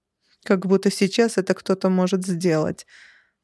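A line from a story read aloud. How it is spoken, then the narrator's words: Sarcastic snort. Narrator (Russian): саркастически хмыкнула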